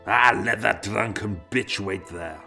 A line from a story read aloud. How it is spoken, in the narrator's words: Alexander snorted